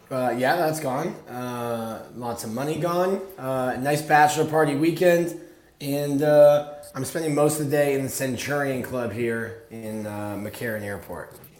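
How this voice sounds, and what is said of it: Hoarse voice. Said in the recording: “Sound a little hoarse. ... who are you screaming at”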